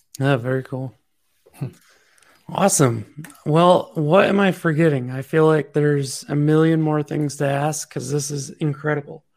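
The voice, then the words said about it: Hoarse, fading voice. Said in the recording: “As I'm losing my voice.”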